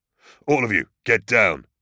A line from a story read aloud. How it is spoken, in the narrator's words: he snarled the order